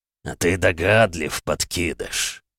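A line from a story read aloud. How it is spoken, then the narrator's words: Monster growling. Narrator (Russian): рычал монстр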